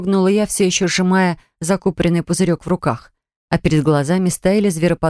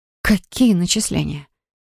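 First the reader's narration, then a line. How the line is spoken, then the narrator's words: Heavy, weary, patronizing sigh. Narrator (Russian): Саган так тяжело вздохнул, будто сейчас ему предстояло объяснить несмышленному ребенку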